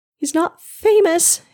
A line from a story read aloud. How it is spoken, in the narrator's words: mother moaned